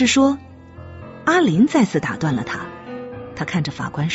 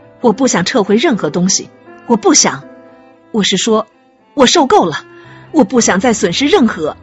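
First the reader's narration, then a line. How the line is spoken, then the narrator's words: Loud, pounding table. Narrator (Chinese): 舍丽娜则拍着桌子大声说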